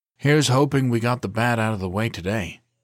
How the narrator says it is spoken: Calvin said with a sigh

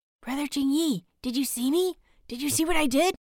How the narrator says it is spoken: whispers, practically vibrating

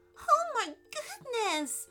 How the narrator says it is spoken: squeaked Allison

